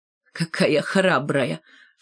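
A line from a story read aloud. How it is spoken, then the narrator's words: Sinister giggle. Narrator (Russian): Шмакова зловеще хихикнула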